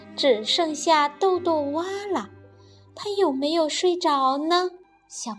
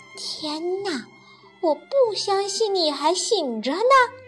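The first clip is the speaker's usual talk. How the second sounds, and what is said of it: Soft, quiet voice. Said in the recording (Chinese): “黛拉小声地说”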